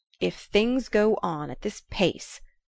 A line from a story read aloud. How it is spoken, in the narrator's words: Lefferts thundered